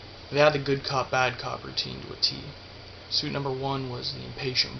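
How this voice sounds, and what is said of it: Usual voice. Nothing is said of it.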